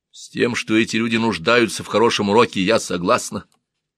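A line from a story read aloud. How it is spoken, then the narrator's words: Calm reply. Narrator (Russian): ответила спокойно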